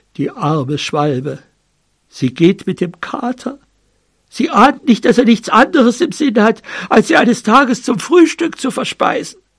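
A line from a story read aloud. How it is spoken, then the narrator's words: Dog murmering in ear. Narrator (German): Der Hund murmelte der Hündin ins Ohr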